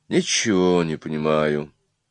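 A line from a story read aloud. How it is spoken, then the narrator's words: Quiet aside to neighbor. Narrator (Russian): тихо сказал некто в цилиндре, не то Онегин, не то Чацкий, своему соседу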